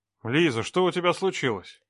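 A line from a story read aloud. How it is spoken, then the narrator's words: Stern, through a door. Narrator (Russian): Строго спросил он, стоя за дверью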